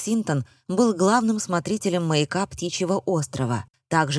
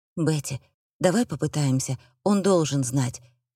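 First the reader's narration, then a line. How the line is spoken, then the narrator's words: Pleading. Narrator (Russian): взмолилась Сельби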